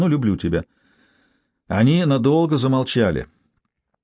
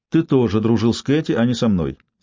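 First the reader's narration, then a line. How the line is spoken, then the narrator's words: Plain. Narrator (Russian): сказала Джессика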